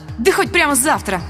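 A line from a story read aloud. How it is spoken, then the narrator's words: Snapping retort. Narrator (Russian): огрызнулась я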